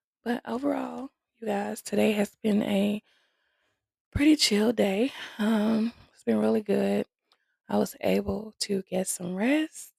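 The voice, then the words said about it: Tired, sleepy voice. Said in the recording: “As you could probably tell in my voice, I'm tired again.”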